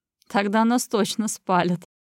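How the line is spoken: Cheerful laugh. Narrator (Russian): Весело хохотнув

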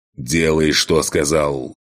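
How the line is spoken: Roaring. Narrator (Russian): Проревел

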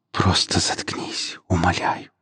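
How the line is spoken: Tearful whisper. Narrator (Russian): прошептала Нелли, не в силах сдержать слезы

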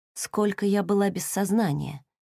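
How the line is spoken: Barely audible question. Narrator (Russian): чуть слышно спросила Хейли

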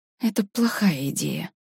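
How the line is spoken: Through gritted teeth. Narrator (Russian): процедила Варя

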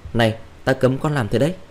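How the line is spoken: Angry shout. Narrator (Vietnamese): hắn tức giận quát tôi

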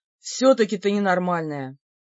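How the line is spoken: Regretful sigh. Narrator (Russian): С сожалением вздохнул Бер

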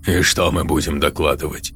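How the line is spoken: Snorting. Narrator (Russian): хмыкнул Назери

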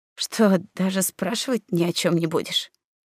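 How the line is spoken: Odd exhale, somewhat bewildered. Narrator (Russian): как-то странно выдохнул, почти хекнул и немного растерянно сказал

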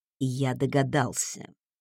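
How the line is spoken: Whisper. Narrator (Russian): прошептал он

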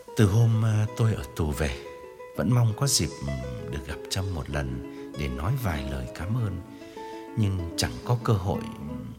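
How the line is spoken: Low earnest voice. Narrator (Vietnamese): Chàng hạ giọng tha thiết

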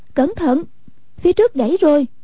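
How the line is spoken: Warning cry. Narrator (Vietnamese): Hoàng Dung kêu lên

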